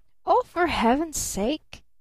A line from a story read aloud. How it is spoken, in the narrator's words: gasped Barton